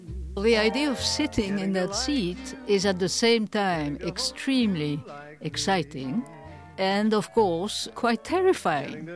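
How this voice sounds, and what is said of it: Noticeable foreign accent. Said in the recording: “my funny accent at times”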